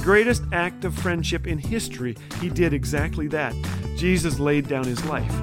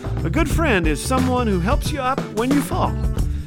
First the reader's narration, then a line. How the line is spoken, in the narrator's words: after he stops laughing